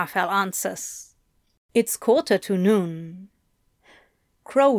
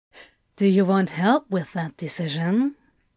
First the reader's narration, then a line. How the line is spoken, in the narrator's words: smiles